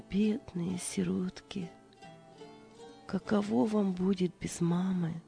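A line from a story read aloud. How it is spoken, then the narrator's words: Gentle whisper. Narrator (Russian): Служанка, глядя на спящих детей, прошептала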